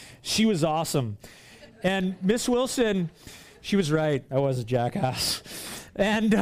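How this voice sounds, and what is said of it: Usual voice. Nothing is said of it.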